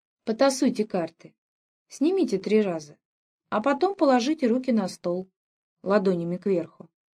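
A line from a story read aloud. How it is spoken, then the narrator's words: Clipped. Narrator (Russian): говорила она отрывисто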